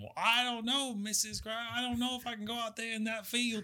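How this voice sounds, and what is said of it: Racist stereotyped slave character voice. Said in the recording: “does a racist slave impression”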